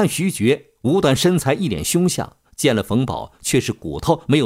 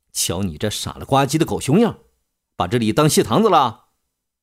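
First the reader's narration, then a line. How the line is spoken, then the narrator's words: Stern scolding. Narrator (Chinese): 冯宝顿时拉下脸来，厉声申斥道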